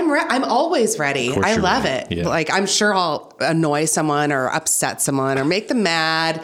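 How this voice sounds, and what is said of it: Usual voice. Nothing is said of it.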